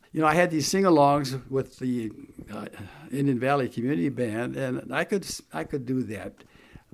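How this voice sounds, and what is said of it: Gravelly, worn voice. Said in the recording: “my voice is so shot now ... It's just all gravelly now”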